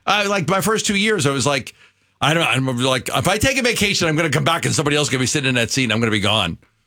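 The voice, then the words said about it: New York accent. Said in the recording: “who is this kid with a New York accent who can't pronounce words”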